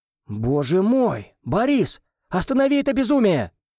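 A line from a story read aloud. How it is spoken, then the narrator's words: Shouted out. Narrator (Russian): выкрикнул кто-то из родственников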